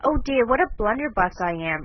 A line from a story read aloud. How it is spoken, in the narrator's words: exclaimed Joe